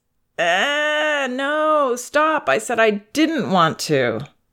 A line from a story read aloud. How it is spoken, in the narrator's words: Then she whines